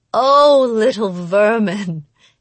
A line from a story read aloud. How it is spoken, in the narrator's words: she chuckled